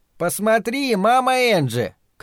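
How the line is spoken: Shouting. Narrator (Russian): крикнул Динни

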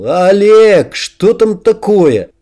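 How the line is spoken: Loud impatient question. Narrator (Russian): Не выдержав, Макс громко спросил

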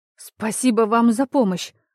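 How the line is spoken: Exclaimed. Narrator (Russian): воскликнула она

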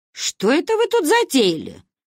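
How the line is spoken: Sudden booming trumpet-like voice. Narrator (Russian): Внезапно прогремевший сзади трубный глаз

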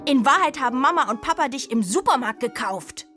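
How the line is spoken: Bellowed. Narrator (German): brüllt sie

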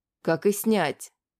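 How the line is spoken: Grumbling under breath. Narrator (Russian): буркнула себе под нос та

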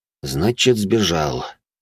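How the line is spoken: Muttered under breath. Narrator (Russian): буркнул я себе под нос

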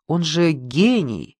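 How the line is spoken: Angry. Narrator (Russian): сказала Галина Петровна зло

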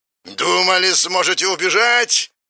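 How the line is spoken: Shouting. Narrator (Russian): кричал он

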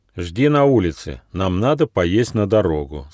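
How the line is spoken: Plain. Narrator (Russian): сказал гномик

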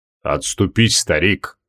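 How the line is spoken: Muffled, dull voice. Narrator (Russian): глухо произнес Астромарий

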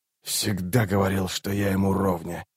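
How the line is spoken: Muttering. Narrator (Russian): пробормотал Раллик

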